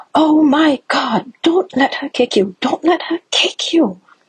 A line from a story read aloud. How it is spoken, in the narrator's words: a woman a couple seats down from us on the train shouts at me